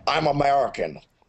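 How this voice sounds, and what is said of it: Gruff put-on American accent. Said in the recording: “American with, like, that gruff, like... That's my imitation.”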